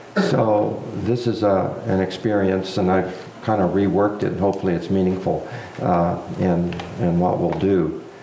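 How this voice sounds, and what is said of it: Voice sounds a little off. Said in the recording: “As you can tell, my voice is a little off.”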